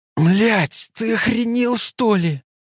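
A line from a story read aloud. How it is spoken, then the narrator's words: Howled. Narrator (Russian): Взвыл он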